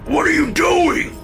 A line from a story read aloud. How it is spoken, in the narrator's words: Dad screamed